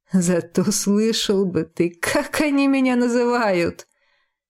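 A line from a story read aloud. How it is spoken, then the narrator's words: Laughing chuckle. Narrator (Russian): хохотнул он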